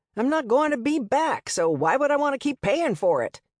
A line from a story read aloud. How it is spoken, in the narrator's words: He yelled